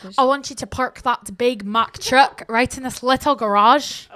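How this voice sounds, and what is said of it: Put-on Scottish accent. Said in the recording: “How about Scottish?”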